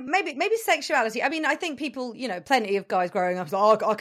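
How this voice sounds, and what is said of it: Usual voice. Nothing is said of it.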